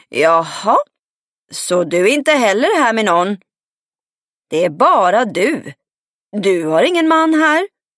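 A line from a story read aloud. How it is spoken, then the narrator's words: Hoarse shout across greenhouse. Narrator (Swedish): ropade hon hest tvärs över växthuset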